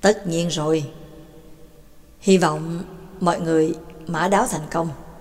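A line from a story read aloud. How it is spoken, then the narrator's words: Smiling. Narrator (Vietnamese): Giáo sư Phương Tân mỉm cười nói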